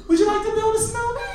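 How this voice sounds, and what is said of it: Sung in a falsetto voice. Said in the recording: “That's my falsetto.”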